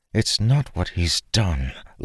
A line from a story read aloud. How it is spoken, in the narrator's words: Lyra said, leaning in to speak softly